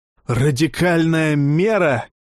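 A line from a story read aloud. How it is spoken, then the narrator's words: Roar. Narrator (Russian): взревел унтерцентурион Кнут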